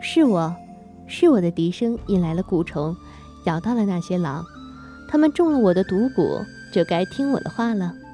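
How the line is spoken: Shy, laughing reply. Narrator (Chinese): 于梅见许多人望着自己，有几分害羞的笑着答道

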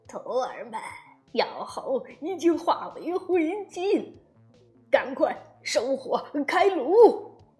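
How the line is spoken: Hearty laughter. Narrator (Chinese): 太上老君哈哈大笑起来

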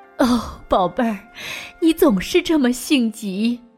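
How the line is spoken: Crying. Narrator (Chinese): 斯坎普哭着说

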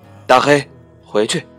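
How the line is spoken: Calling out. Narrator (Chinese): 停下来喊

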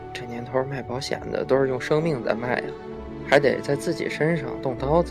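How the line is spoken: Muttering. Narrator (Chinese): 嘴里嘟囔着

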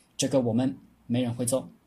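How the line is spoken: Cold. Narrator (Chinese): 太师冷冷地说

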